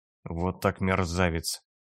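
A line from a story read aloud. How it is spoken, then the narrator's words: Expressive mutter. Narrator (Russian): выразительно пробормотал солдат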